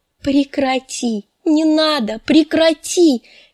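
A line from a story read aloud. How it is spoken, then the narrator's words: Shrieking. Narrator (Russian): визжала Санса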